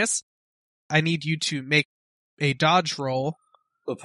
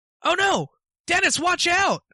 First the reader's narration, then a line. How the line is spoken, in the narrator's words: you just hear Silver shout